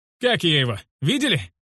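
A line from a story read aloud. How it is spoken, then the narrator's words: Ecstatic shout. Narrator (Russian): Восторженно прокричал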